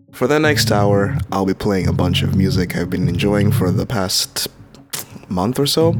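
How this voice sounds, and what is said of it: Slightly odd, impaired speech. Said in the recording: “I sound a little weird right now, it's because I am currently suffering from a toothache”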